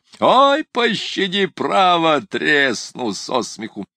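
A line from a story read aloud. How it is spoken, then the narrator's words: Speaking through loud laughter. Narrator (Russian): Ноздрев продолжал хохотать во все горло, приговаривая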